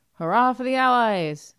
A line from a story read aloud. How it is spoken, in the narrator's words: Fat females shouting